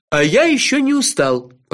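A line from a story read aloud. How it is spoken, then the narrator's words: Grumbled. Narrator (Russian): проворчал Кофа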